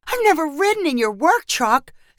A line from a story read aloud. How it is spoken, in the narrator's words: Celeste cried excitedly